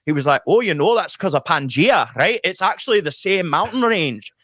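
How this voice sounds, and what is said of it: Good put-on Scottish accent. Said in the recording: “That's a really good Scottish accent... That well done.”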